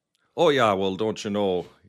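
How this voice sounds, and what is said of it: Put-on Minnesota Fargo accent. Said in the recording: “the Fargo accent”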